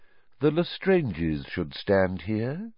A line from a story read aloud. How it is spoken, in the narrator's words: said Voldemort quietly